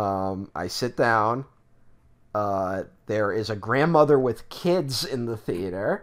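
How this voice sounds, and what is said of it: Usual voice. Nothing is said of it.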